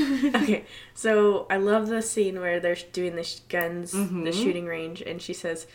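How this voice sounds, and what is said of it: Usual voice. Nothing is said of it.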